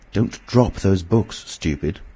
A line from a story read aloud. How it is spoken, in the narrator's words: said the voice sharply